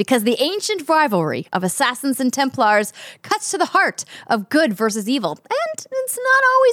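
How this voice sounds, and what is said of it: Usual voice. Nothing is said of it.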